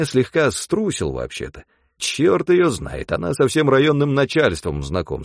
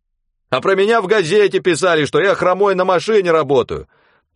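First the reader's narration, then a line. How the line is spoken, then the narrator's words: Shouting. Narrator (Russian): Тоже закричал Веня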